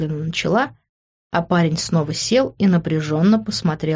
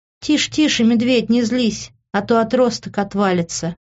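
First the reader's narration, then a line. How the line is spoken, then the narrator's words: Laughing. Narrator (Russian): рассмеялась я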